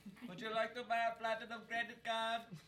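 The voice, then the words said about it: Put-on Indian accent. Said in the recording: “went to like an Indian accent”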